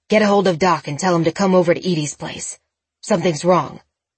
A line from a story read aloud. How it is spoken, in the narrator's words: he growled into the phone